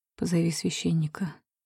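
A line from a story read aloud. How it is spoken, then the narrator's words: Whispered request. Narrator (Russian): шёпотом прошу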